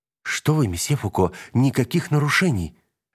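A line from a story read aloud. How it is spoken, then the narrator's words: Exclaimed. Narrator (Russian): воскликнула девушка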